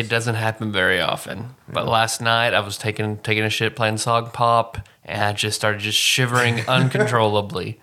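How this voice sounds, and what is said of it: Sick, rough-sounding voice. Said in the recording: “why do you sound so awful? ... I'm sick.”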